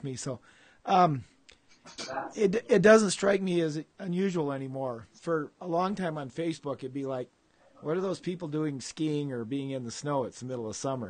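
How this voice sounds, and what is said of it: Hoarse, fading voice. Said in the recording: “I'm going to be coughing and losing my voice some”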